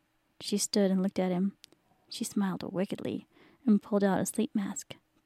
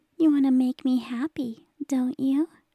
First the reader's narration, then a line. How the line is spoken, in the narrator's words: she asked, in an almost little girl voice